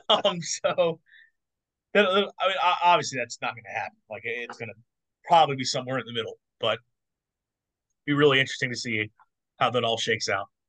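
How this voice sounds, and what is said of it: Hoarse, worn-out voice. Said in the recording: “my voice is shot. This episode went long”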